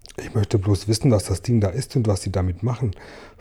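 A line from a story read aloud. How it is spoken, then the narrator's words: Whispering. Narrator (German): flüsterte Marienkäferchen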